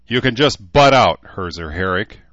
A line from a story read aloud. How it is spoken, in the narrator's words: Rachel snapped